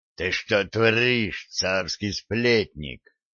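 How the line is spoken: Growled. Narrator (Russian): зарычал Федот

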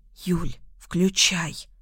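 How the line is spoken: Determined whisper. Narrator (Russian): шепнула Маруся решительно

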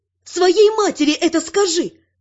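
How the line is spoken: Snapping retort. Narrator (Russian): огрызнулась

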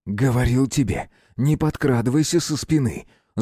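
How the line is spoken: Spiteful, through teeth. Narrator (Russian): злобно процедил Дмитрий Николаевич

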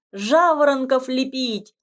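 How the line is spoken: Shouted. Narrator (Russian): крикнул Романок

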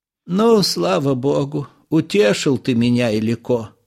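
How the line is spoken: Old woman's relieved sigh. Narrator (Russian): С облегчением вздохнула бабушка

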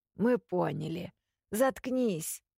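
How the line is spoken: Grumbling with a cold voice. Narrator (Russian): пробурчал кто-то простуженным голосом

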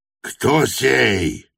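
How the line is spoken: Roar. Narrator (Russian): взревел чей-то голос

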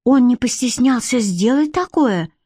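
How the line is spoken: Exclaimed. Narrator (Russian): воскликнула Модья

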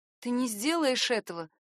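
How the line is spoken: Forced calm. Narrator (Russian): Я старалась говорить спокойно

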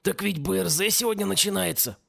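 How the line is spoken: Hoarse wheeze. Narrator (Russian): прохрипел тот

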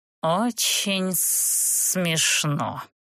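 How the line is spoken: Dragon hissing. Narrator (Russian): прошипел дракон

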